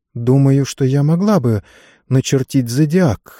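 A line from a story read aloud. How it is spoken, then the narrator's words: Uncertain lady. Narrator (Russian): неуверенно сказала леди Катрин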